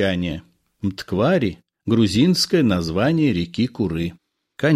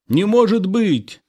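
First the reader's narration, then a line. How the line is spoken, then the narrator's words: Exclaiming. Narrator (Russian): воскликнул Шата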